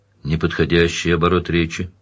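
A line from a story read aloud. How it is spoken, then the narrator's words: Dry, curt. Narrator (Russian): сухо сказал Данил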